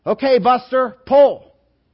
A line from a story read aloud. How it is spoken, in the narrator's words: the farmer yells out